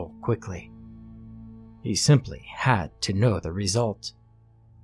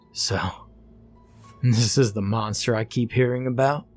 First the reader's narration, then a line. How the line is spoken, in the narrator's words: The man laughed